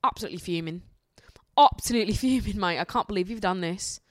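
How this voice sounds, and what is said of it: Put-on accent, not very convincing. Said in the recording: “My accent is getting worse and it's actually really bothering me because I feel like it used to be a lot better.”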